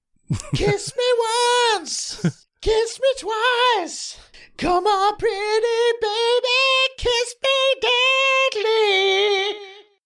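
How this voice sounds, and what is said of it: Sings in an imitated female voice. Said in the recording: “I'm pretty sure my voice is spot on ... It's hard for me to do a female voice. I just can't do it. I've been sick for a week ... Had a sore throat for a month.”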